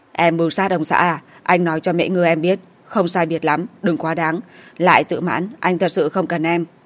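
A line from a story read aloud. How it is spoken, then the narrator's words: Low pained growl. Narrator (Vietnamese): Đàm Tử Việt bị đau, gầm nhẹ nói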